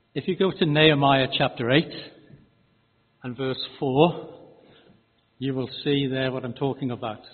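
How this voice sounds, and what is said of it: Speaks with a noticeable accent. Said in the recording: “as you're getting used to my accent”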